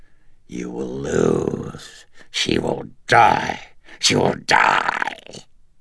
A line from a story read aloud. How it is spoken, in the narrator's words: croaked